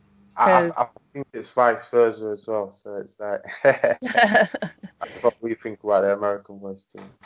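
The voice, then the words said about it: British accent. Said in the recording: “Americans love a British accent”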